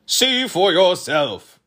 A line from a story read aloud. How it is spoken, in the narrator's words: roared Chroma